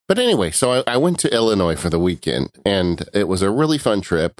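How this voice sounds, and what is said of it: Unwell, affected voice. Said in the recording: “excuse my voice. I'm sorry. I'm dealing with something right now”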